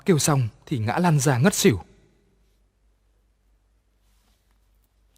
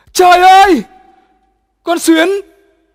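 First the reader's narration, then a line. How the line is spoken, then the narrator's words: Shrieking in shock. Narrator (Vietnamese): Nó vừa nhìn thấy đã kêu thét lên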